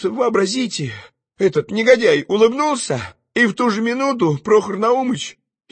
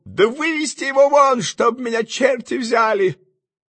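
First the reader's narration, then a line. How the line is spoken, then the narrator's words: Exasperated shout. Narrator (Russian): Прохор Наумыч не вытерпел и крикнул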